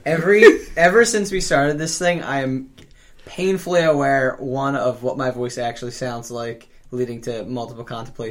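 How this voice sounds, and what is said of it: Philadelphia accent. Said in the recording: “your dumbass Philly accent... my fucking accent... It's getting worse as I get older.”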